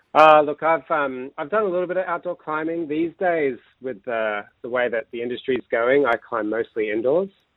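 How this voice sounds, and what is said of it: American accent. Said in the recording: “I detect a little bit of an accent there ... I just can't get rid of my American accent”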